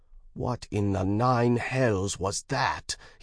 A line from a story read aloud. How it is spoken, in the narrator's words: snarled angrily, heart thudding in his ears